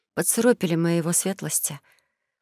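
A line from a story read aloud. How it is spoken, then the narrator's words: Muttering. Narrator (Russian): пробормотала Элия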